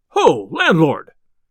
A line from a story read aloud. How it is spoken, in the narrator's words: cried he